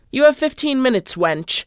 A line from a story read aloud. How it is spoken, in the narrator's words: snarled